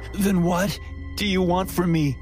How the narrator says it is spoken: I managed to gasp out

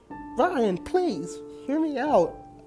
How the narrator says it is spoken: I begged

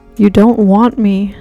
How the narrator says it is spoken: she cried

